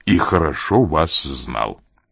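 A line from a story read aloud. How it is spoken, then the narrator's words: Hoarse, distinct whisper. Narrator (Russian): говорил он сиплым голосом, скорее даже каким-то отчетливым шепотом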